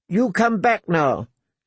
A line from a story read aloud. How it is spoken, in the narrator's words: she was shouting after him